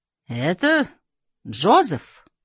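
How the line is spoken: Exclamation. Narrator (Russian): воскликнул пробакер

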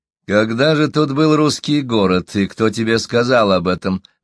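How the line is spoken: Mocking, incredulous question. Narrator (Russian): насмешливо и недоверчиво спросил Ренье

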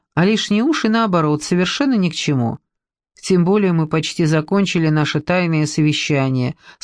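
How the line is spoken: Plain. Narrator (Russian): сказала Люба

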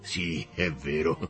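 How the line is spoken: Laughing. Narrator (Italian): rise l'altro

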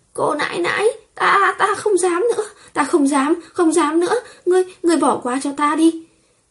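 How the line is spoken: Screaming in pain. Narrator (Vietnamese): Cao Vân bị đau đến thét lên

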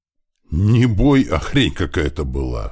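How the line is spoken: Sighing. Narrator (Russian): вздохнул Туман

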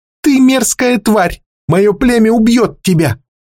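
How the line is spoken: Snapping through bared teeth. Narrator (Russian): огрызнулась Ятмур, оскалив зубы

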